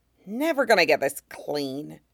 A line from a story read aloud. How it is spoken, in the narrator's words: Cal muttered to his poncho